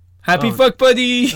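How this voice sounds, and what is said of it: Exuberant yelling. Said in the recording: “Stop yelling. ... Yes, you're yelling. ... I'm sorry for getting exuberant.”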